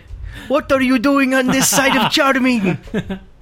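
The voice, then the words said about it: Put-on Asian accent. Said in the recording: “is that your Asian impression? ... It sounded like it's not very Hispanic.”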